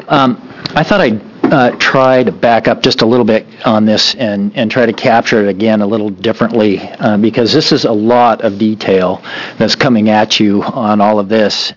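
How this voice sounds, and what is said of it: Slightly hoarse voice. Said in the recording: “Just coming off a little bit of that cold, so I'm a little hoarse here yet today.”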